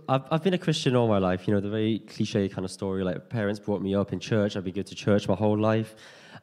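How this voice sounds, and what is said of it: Strong Liverpool accent. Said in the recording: “I'm from Liverpool. ... So if you don't understand me, I'll get someone over to translate it for you as well. Because I know there are some people who have issues with my accent”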